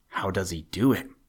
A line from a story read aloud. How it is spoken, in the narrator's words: whispered Peter